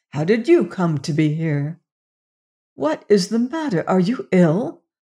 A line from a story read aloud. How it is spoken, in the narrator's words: whispered huskily